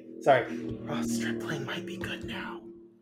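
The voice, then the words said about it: Quiet, hushed speaking. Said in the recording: “I'm gonna say it quietly.”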